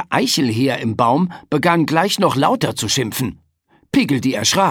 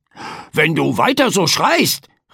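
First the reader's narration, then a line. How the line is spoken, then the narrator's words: Calling out. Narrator (German): rief Frederik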